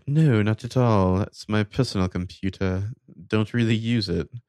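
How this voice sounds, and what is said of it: Posh British accent. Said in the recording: “That's an accent. ... You're like fucking like Malfoy third cousin there.”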